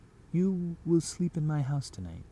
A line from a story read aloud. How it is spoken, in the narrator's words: says